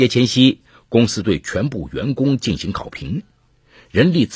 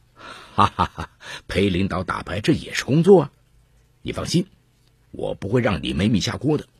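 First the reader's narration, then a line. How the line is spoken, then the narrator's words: Hearty laughter. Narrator (Chinese): 张元雄哈哈大笑说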